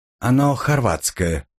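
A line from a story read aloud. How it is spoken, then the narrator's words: Neutral tone. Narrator (Russian): нейтральным тоном сообщила она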